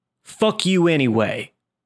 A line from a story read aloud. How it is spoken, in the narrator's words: said